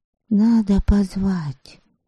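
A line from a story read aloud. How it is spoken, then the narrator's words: Overheard whispering. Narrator (Russian): услышала она обрывок разговора Ольгицы и Куноты, которые уже некоторое время перешептывались у нее за спиной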